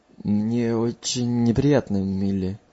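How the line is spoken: Muttered. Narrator (Russian): Уормл пробормотал

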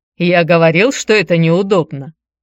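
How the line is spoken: Short laugh. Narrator (Russian): хохотнул Никита

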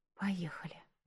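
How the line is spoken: Whisper to herself, girl. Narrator (Russian): прошептала девушка сама себе

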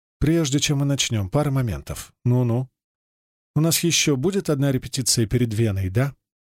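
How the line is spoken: Deliberately calm question. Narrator (Russian): спрашивает она нарочито спокойным голосом

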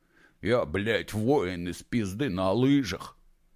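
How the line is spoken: Low, quiet, mocking bass. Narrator (Russian): Скорчил надменно тупую рожу и низким голосом колдея негромко пробасил

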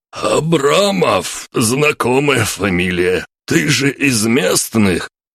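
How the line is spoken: Hoarse wheeze. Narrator (Russian): прохрипел

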